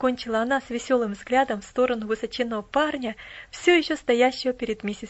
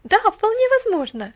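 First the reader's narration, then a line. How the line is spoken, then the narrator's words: Exclaim. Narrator (Russian): воскликнула Поллианна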